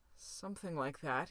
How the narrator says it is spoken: murmured

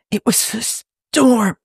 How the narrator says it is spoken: wheezes

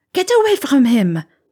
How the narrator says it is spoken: she cried

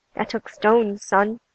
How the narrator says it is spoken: Bobby said

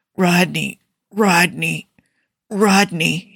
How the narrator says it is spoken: he groans

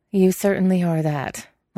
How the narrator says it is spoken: Lan Xichen said dryly

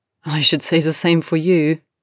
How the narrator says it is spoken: replied Harry, laughing

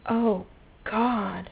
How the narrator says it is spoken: Rodney moaned

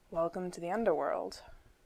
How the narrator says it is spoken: Shepard muttered softly

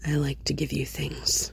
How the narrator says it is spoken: Bruce said quietly

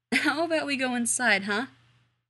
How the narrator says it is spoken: He said, only laughing harder

